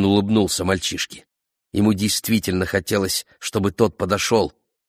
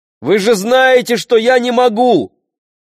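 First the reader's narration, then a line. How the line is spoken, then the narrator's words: Shouted. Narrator (Russian): крикнул Ишмаэль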